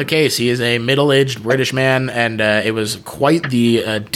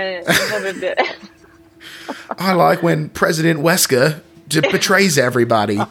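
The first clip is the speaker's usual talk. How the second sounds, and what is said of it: Put-on prim British accent. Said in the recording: “prim and proper British guy ... your accent sucks!”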